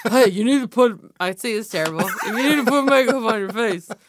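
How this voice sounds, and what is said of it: Imitates another person's voice. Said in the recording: “I can't do a Trump impression.”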